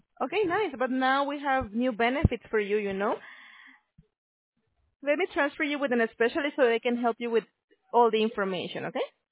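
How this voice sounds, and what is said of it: Speaks English with a noticeable accent. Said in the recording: “you have the most beautiful accent I've ever heard.”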